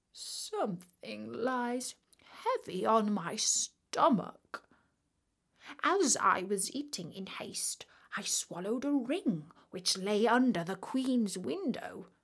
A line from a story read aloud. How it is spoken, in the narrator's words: one said in a pitiful tone